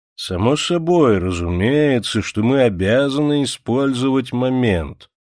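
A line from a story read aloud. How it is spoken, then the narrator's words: Drawling elderly man. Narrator (Russian): заговорил тягучим голосом один из присутствующих, седовласый адвокат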